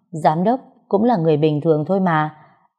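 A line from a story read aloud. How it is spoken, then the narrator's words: Smiling speech. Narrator (Vietnamese): Long mỉm cười nói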